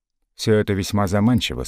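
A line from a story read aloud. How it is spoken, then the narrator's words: Calm reply. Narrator (Russian): спокойно ответил Севицкий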